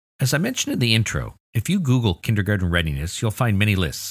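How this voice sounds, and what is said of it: Usual voice. Nothing is said of it.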